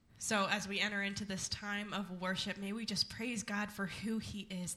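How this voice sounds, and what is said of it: Slightly hoarse, fading voice. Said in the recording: “I'm losing my voice like a little bit”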